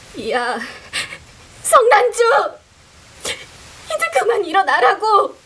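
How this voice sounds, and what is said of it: Half-sobbing shout. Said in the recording (Korean): “반쯤 울먹거리는 목소리로 ... 냅다 소리를 질렀다”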